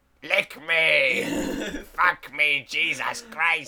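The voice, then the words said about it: Imitates possessed girl from horror film. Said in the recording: “That's a good impression ... Completely Exorcist impressions”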